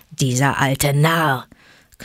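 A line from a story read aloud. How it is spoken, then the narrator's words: Growled. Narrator (German): knurrte Vater Wolf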